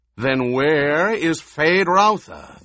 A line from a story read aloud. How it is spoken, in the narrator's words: the baron roared